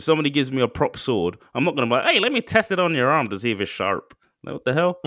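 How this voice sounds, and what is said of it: Put-on American accent. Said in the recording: “I don't know why I did the American accent”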